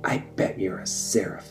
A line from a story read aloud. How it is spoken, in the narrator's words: he whispered